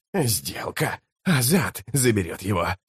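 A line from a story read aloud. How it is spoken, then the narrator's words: Hoarse, shaken rasp. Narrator (Russian): прохрипел верховный жрец, который все еще шатался после встречи с тонойским чародейством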